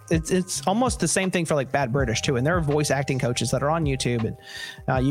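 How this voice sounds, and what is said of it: Usual voice. Nothing is said of it.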